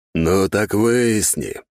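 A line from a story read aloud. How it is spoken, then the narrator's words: Growling. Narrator (Russian): прорычал Мор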